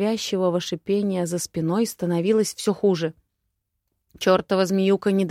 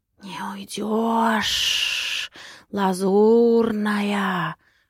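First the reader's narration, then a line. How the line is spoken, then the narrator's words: Hissing voice inside head. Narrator (Russian): шипело существо прямо в моей голове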